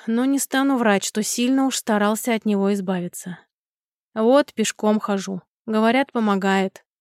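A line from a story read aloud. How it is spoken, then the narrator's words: Sighing innkeeper. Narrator (Russian): вздохнул харчевник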